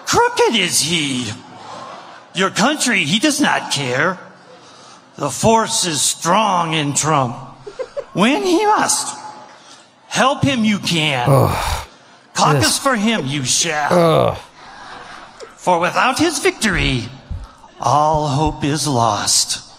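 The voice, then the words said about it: Yoda impression, not very convincing. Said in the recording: “him to do a Yoda impression ... is that even a good Yoda?”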